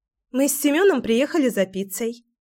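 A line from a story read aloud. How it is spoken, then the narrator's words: Cheerful. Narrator (Russian): весело произнесла Кира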